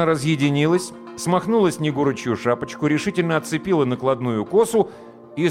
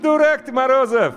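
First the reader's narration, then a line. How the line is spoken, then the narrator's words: Laughing. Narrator (Russian): хохотнула Люська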